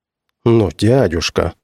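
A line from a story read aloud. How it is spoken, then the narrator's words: Sigh. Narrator (Russian): вздохнул племянник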